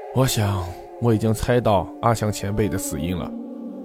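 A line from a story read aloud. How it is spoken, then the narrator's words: Heavy sigh. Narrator (Chinese): 何建飞半晌长叹一声道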